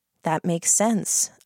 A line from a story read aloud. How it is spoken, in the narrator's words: I said, very gently